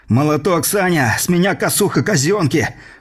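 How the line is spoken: Angry shout. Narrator (Russian): в сердцах выкрикнул

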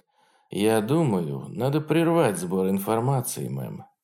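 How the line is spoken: Cautious, careful tone. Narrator (Russian): ответил он осторожным тоном человека, который понимает, как может отразиться это действие на карьере обоих

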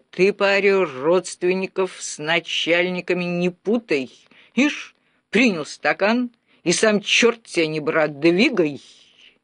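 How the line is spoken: Metallic growl. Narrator (Russian): он металлическим голосом прорычал

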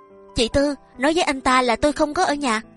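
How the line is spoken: Agitated, very loud. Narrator (Vietnamese): Trái tim nàng đập lên thật mạnh, nói thật to tiếng

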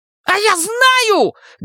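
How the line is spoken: Angry shriek. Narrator (Russian): гневно взвизгивает шакал

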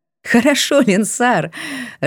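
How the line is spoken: Laughing. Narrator (Russian): рассмеялась я

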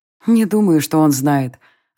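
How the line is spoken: Sighing again. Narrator (Russian): опять вздохнула Ая

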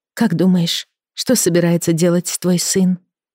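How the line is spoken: Plain. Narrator (Russian): спросила Эми

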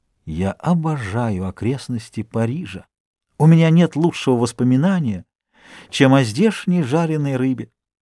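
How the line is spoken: Whispered. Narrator (Russian): Дюруа прошептал

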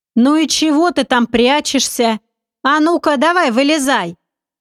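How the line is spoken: Loud stranger's voice. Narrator (Russian): Незнакомец громко произнес

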